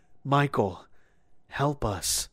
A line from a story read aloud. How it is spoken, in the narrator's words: he whispered